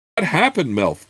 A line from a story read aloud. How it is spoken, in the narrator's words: Chert cried over his shoulder